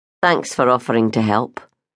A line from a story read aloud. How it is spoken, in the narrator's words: he muttered